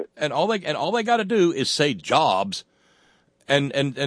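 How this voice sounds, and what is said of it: Usual voice. Nothing is said of it.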